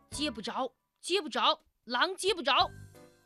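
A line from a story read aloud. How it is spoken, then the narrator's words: Inner shout. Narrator (Chinese): 野猪竟然在自己的心里喊了起来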